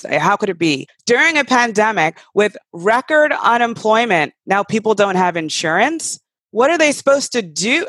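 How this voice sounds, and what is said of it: Voice rising with anger. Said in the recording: “my voice is rising because it honestly makes my blood boil”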